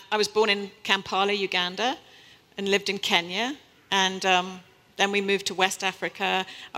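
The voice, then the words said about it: British accent, sounds like London. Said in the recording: “you probably have this idea from my accent that I'm from London or something”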